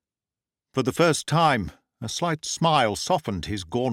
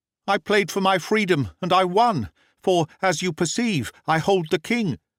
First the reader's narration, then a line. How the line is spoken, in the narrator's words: I cried